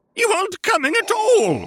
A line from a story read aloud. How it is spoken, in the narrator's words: screeched the overwrought director